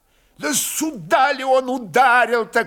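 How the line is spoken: Man shouting to brother. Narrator (Russian): крикнул Михайло Прозоровский брату

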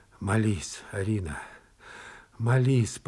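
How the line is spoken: Moan. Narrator (Russian): простонал он

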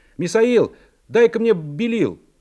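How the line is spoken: Shouted from above. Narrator (Russian): живописец, писавший наверху голубя, крикнул мне

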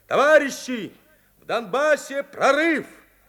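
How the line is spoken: Shouting. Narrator (Russian): закричал

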